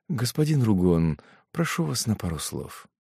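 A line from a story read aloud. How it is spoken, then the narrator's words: Whisper. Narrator (Russian): прошептав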